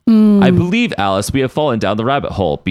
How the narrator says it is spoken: Beast said

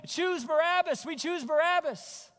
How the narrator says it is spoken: yelling

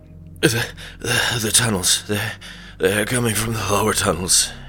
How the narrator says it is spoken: he stammered out of breath and coughing blood

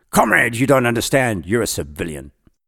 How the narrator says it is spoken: tried to console him, but he snapped

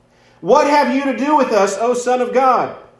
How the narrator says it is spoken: These demons, as they came and they met Jesus, they cried out

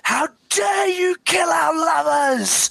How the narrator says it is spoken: the other pilots shout out

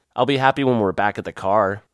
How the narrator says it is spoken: Ron said

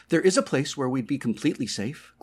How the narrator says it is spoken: Gloria exclaimed, her voice suddenly loud in his ears

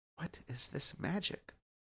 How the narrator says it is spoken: When maternal love also overcame them, they quietly murmured

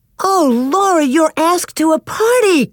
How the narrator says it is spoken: Carrie exclaimed

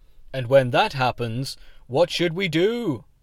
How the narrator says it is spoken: Osborne Richards intoned

